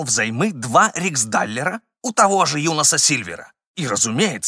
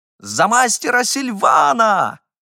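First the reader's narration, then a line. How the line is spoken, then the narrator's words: Overexcited shout. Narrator (Russian): крикнул я, видимо, с излишней ажиотацией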